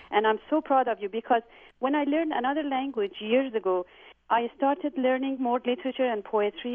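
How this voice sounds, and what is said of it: Slight foreign accent. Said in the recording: “it sounds like you have just a little bit of an accent yourself”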